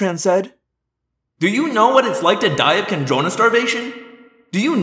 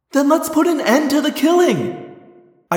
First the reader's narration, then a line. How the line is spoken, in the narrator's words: I cried